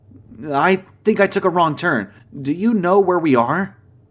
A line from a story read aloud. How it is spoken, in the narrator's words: asked, still pleading